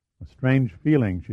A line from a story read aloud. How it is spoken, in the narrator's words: she said